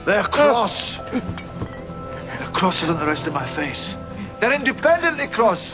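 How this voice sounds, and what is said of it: Scottish accent. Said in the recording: “You are definitely Scots, sir. I hear it in your voice.”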